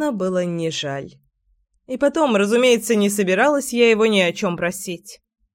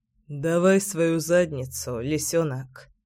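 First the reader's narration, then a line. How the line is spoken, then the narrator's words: Low husky rumble. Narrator (Russian): Негромко, с хрипотцой, пророкотал Кирилл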